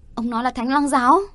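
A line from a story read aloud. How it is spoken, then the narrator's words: Loud shout. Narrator (Vietnamese): Ta hét toáng lên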